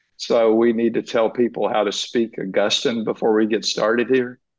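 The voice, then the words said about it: Southern American accent. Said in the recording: “I've got a Southern accent.”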